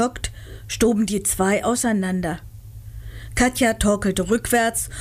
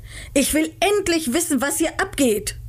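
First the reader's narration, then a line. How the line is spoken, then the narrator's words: Angry shouting. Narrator (German): schrie sie die beiden an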